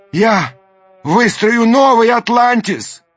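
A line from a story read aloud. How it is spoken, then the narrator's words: Shouted after them. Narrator (Russian): крикнул им вслед Даймё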